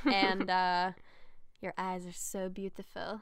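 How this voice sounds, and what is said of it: Vaguely French put-on accent. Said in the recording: “Was that like a Slovakian accent? ... It was like a kind of Frenchish.”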